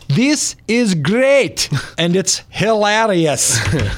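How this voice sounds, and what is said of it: Put-on Scottish accent. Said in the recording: “Didn't know he was actually from Scotland, but that's the only accent I can do”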